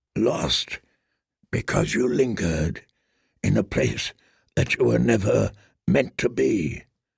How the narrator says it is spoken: murmured Ser Jorah, as softly as a wind

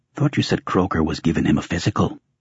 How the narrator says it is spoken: He whispered

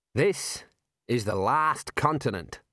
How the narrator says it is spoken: said Scrappy

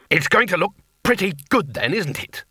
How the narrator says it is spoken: said testily

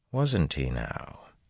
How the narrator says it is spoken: Rand said softly

